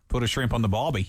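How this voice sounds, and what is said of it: Put-on Australian accent. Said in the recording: “my Australian accent ... Now that's terrible ... that's very good ... It needs work”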